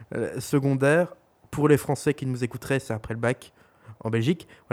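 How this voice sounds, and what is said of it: Belgian French accent. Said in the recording (French): “nous sommes belges ... notre accent, probablement dégueulasse pour vous”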